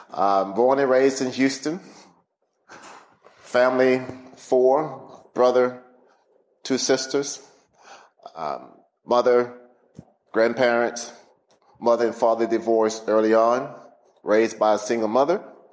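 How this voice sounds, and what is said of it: Southern Texan twang. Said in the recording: “You're probably hearing in my voice that I'm not a Pittsburgher. There's a Southern twang in that voice ... I'm a Texan”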